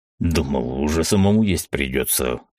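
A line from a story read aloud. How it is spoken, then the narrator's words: Wry snort. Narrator (Russian): хмыкнул он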